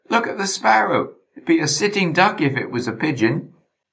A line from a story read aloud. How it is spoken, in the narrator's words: I cried